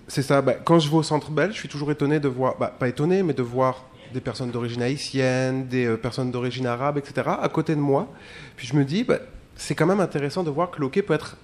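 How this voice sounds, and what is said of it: Foreign accent in French. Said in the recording (French): “comme vous l'entendez à mon accent, je suis migrant”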